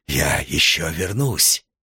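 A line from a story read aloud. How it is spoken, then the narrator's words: Muttered. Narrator (Russian): он пробормотал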